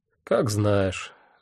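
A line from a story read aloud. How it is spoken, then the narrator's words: Sigh. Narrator (Russian): вздохнул я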